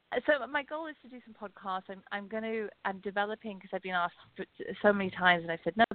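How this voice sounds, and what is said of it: Pleasant-sounding accent. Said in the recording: “I love how you say podcast. It sounds so nice. ... She's got that damn accent.”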